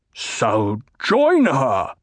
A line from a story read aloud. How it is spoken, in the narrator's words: the Baron spat